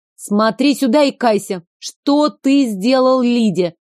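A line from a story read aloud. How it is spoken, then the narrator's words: Barking. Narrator (Russian): Рявкнула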